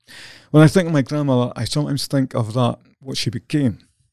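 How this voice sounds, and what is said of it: Voice breaking, close to tears. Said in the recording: “my voice is breaking up here a bit ... Filling up here”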